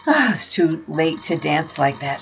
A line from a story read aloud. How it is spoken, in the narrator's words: gasped